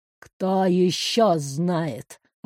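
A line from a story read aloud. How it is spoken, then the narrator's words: Deceptively quiet question. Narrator (Russian): Обманчиво тихим голосом спросил босс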